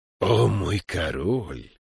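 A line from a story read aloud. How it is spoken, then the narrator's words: Familiar hoarse voice. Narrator (Russian): послышался знакомый хриплый голос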